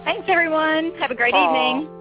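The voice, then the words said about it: Noticeable pleasing accent. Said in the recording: “Isn't that a great accent? I just love ... accent.”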